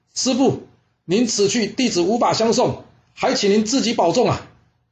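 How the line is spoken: Shouting. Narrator (Chinese): 他又大喊了

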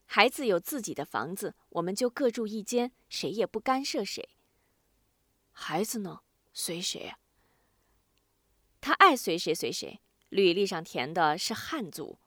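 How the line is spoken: Sighing. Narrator (Chinese): 他叹了口气

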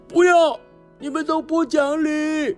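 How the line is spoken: Angry shout. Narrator (Chinese): 天福吼的主任说

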